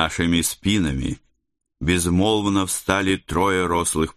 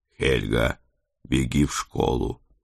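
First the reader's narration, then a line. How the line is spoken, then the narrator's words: Quiet request. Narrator (Russian): тихо попросил я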